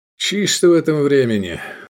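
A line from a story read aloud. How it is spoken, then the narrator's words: Sigh. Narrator (Russian): вздохнул Искандер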